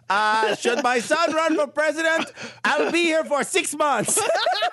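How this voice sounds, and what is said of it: Noticeable foreign accent. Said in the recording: “his accent's hilarious... His accent is hilarious.”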